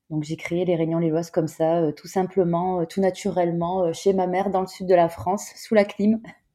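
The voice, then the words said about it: Southern French accent. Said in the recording (French): “ce joli petit accent du sud”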